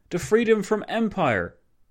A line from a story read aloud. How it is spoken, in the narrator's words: O'Kelly exclaiming